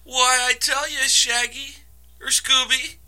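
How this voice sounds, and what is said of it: Poor cartoon character voice impression. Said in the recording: “That is a terrible fucking impression.”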